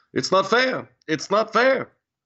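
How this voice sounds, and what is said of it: Imitates another person's voice. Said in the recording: “You do the best Bernie impression.”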